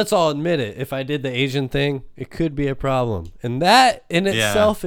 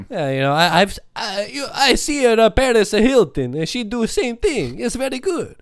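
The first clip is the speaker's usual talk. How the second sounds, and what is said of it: Put-on Italian accent, like Mario. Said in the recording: “do that accent... Italian people really don't give a shit if you sound like Mario”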